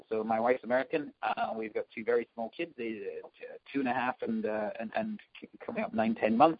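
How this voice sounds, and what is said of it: Scottish accent. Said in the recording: “I'm from Scotland, as people might spot from the accent.”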